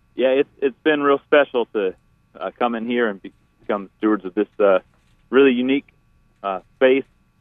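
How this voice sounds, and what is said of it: Slightly out of breath speech. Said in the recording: “Sorry if I'm a little out of breath. I'm here on the farm at Grasshopper Farms moving some equipment around.”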